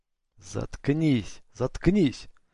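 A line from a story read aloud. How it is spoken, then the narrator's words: Hissing. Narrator (Russian): прошипел Коин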